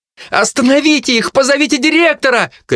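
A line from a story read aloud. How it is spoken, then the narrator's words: Shouted, young woman. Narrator (Russian): крикнула девушка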